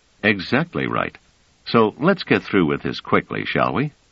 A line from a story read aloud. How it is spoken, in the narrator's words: Trevise said coolly